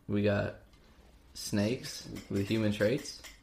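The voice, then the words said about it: Hannibal Buress impression. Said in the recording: “That was a Hannibal Buress voice.”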